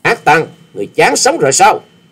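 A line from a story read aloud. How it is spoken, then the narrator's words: Furious loud shout. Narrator (Vietnamese): chàng cũng nộ khí xung thiên quát lớn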